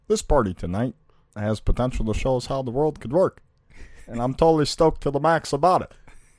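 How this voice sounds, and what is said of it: Imitates another person's voice. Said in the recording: “I can sound a lot like him. ... I can give a really good impression. ... Well, that's really good.”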